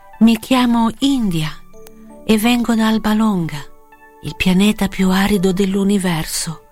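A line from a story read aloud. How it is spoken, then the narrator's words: Plain. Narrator (Italian): disse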